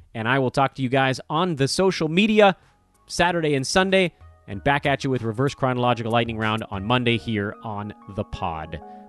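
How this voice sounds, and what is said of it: Fading, worn-out voice. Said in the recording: “My voice is going”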